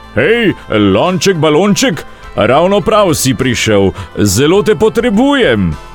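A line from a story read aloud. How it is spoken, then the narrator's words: Calling out. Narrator (Slovenian): zaklical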